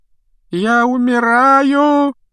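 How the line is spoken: Loud moaning. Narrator (Russian): громко стонал Малфой

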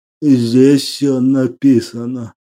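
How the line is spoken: Hoarse voice. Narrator (Russian): хрипло произнес

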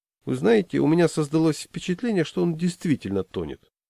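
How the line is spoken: Unhurried, worldly social tone. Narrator (Russian): говорит неторопливо этаким светским тоном

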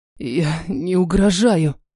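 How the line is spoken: Rasping, broken-toy wheeze. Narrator (Russian): Хрипит, как поломанная игрушка с посаженной батарейкой

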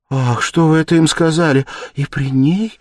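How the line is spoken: Frightened cry. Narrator (Russian): испуганно вскрикнула Соня

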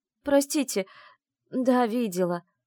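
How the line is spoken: Sobbing. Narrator (Russian): всхлипнула Теа

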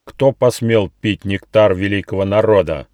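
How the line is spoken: Menacing question. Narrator (Russian): грозно спросил муравей с золотым шлемом на голове

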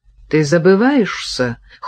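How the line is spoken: Cold. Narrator (Russian): холодно сказала Кира

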